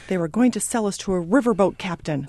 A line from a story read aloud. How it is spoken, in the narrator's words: cried Joe